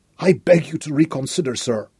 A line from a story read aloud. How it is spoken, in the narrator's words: Hopp whispered hoarsely